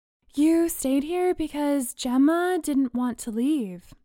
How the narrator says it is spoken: Bree said, sleepily

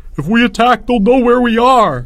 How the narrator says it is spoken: Albert howled

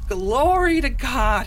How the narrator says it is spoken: shouted

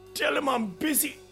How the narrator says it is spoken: I gasped

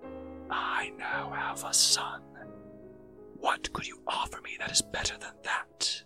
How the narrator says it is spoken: whispered once again

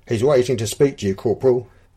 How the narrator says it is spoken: barked

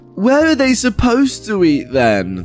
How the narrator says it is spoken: the entitled mum slurs back

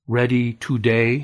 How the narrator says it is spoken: he asked slowly

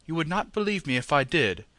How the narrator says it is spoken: Sir Henry said, with one of the hearty laughs which seemed to come right out of his great lungs

